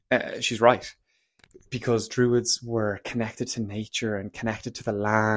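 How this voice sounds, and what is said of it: Usual voice. Nothing is said of it.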